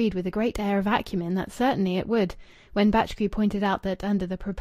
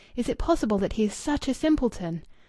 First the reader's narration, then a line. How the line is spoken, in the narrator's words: said Louis eagerly